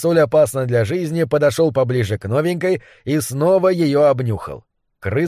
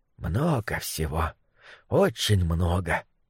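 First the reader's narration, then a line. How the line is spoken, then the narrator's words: Muttered. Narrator (Russian): пробормотал он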